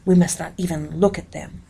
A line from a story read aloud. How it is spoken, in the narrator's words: I whispered to my sister